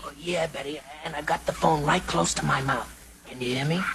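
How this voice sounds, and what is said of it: Very quiet voice from laryngitis. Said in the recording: “has laryngitis. ... he can hardly be heard ... is that as loud as you can speak?”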